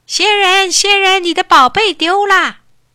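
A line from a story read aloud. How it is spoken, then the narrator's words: Hurried shout. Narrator (Chinese): 小石头……连忙喊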